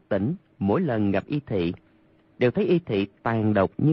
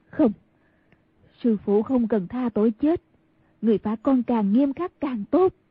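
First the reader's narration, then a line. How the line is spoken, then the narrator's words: Ashamed speech. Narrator (Vietnamese): đột nhiên lại đổi lòng sợ hãi thành xấu hổ nói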